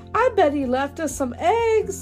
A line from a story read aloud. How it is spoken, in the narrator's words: exclaims Caillou